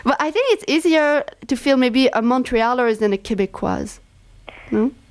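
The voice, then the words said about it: Noticeable non-native accent in English. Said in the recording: “Like me, I cannot hide my accent when I speak English.”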